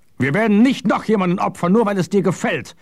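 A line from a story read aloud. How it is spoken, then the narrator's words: Shouting. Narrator (German): schrie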